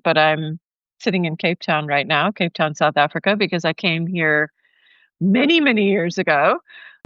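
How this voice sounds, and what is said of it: American accent. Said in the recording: “You might hear that my accent is American”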